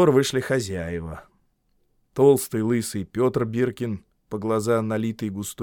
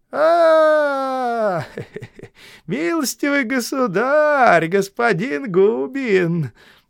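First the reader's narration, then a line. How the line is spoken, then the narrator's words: Thin high voice. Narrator (Russian): тонким голосом сказал Петр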